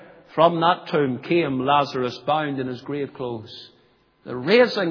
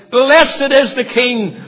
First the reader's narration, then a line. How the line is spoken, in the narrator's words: they cried